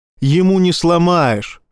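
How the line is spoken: Wry grunt. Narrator (Russian): хмыкнул Фокс

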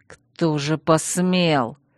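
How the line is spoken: Menacing hiss. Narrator (Russian): угрожающе прошипел Чейз

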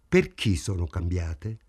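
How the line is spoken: Hostile question. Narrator (Italian): chiese in tono ostile

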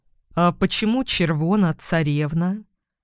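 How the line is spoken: Quiet inquiry. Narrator (Russian): негромко поинтересовался я у хозяйки дома

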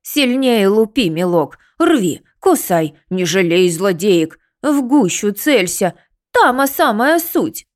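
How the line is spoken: Excited hen-like cackling. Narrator (Russian): Расквохтавшись курицей, она подпрыгивала в возбуждении

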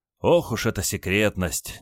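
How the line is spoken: Feigned sigh. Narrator (Russian): делано вздохнул генерал

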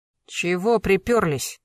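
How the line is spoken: Rude, curt. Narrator (Russian): грубо бросил Ишхан

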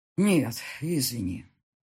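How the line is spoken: Sighing. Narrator (Russian): вздохнул Павел

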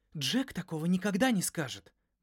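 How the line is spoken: Indignant protest. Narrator (Russian): возмущенно запротестовала Юна

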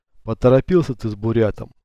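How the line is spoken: Plain. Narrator (Russian): сказал Чилим

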